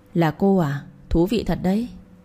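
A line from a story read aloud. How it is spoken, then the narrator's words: Smiling. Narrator (Vietnamese): cậu ba mỉm cười nói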